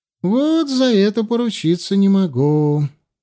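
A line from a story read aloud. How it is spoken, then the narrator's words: Old man sighing. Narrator (Russian): вздохнул старик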